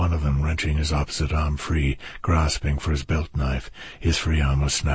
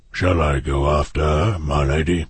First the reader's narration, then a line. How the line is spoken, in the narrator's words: The guard beside her asked, his voice a bass rumble